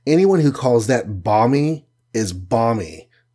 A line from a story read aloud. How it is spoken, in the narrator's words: said the archer